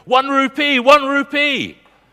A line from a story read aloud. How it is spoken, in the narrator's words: the little children shouting